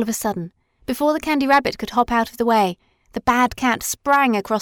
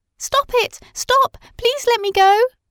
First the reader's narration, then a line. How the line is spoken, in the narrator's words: cried the Candy Rabbit